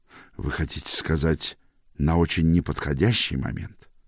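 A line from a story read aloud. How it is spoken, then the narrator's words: Mumble. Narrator (Russian): пробормотал Фулхэм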